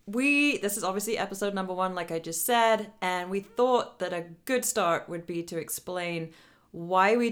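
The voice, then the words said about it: Vaguely British accent. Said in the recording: “I'll be the one sounding vaguely British.”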